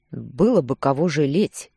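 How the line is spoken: Displeased husband's grumble. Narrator (Russian): проворчал муж недовольно

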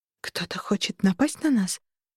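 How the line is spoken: Whisper. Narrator (Russian): прошептала Арабелла

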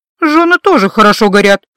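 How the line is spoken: Grim joke. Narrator (Russian): мрачно пошутила

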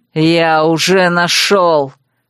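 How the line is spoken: Dragon's bark. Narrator (Russian): рявкнул дракон

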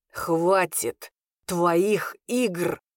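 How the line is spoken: Growled reply. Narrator (Russian): прорычал он в ответ

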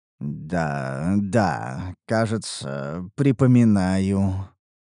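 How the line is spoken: Mumbling. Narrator (Russian): пробормотал я

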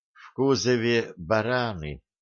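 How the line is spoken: Slow, unfriendly. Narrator (Russian): медленно проговорила Лейла

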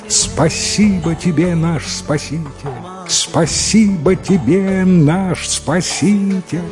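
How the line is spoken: Loud shouting. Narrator (Russian): громко закричали ему вслед

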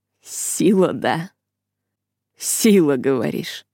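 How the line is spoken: Growling. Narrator (Russian): Его голос похож на рычание

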